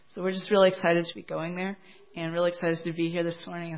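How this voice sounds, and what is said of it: Strained, fading voice. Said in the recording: “I was outside all day yesterday, so my voice is kind of going, so I don't want to lose it”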